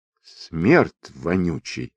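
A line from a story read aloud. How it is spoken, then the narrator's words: Princess speaking through clenched teeth. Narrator (Russian): скрозь жемчуга процедила цесаревна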